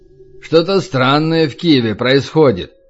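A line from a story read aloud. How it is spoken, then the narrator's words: Grumble. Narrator (Russian): проворчал Разин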